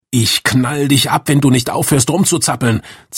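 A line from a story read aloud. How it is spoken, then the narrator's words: Man hissing threat. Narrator (German): zischte der Mann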